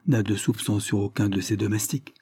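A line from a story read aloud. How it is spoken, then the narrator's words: Low voice. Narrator (French): reprit-il à voix basse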